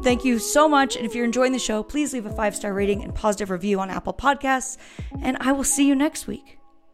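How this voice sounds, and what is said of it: Hoarse voice. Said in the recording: “my hoarse voice. I keep snorting allergies.”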